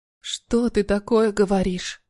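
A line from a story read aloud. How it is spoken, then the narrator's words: Tearful whisper. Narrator (Russian): прошептала, чувствуя, как от слез начинает резать глаза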